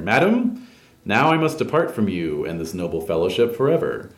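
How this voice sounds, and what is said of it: Loud, projecting voice. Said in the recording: “says in a loud voice so everyone can hear”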